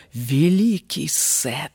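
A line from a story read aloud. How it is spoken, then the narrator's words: Spellbound whisper. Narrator (Russian): прошептала царица Асса, как зачарованная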